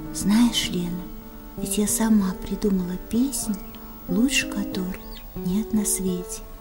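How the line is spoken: Whisper into ear. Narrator (Russian): К самому уху ее склонившись, я прошептала

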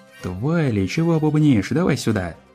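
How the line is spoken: Laughing. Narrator (Russian): Посмеялась Эпплджек

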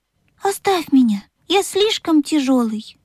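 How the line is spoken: Sad. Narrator (Russian): грустно сказал паровозик

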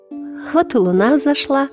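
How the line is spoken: Lamb exclaiming. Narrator (Russian): воскликнул ягненок

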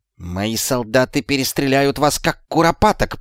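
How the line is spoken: Hiss. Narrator (Russian): прошипел Шлис

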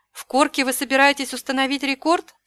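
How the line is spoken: Plain. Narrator (Russian): спросила Эва

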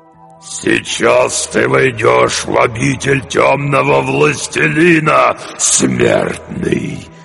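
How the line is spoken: Straining growl, demon. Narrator (Russian): прорычал демон с натугой

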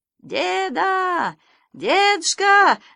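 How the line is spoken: Shouting over engine roar. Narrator (Russian): закричал Санька, стараясь пересилить рев мотора

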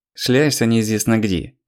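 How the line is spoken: Grumbling. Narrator (Russian): проворчала Нина

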